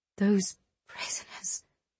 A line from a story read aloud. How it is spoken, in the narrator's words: Eliana whispered